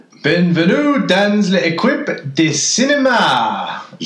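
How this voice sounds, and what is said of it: Put-on French accent. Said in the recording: “We're not really French. ... that perfect French accent.”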